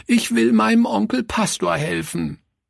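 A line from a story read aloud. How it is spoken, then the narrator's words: Sobbing cry. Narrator (German): rief sie schluchzend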